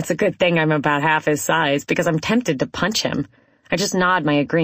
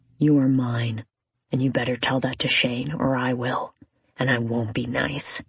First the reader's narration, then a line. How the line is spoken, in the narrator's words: He whispers into my collarbone